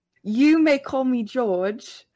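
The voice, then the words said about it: Put-on British accent. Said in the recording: “You gotta get me into the British accent.”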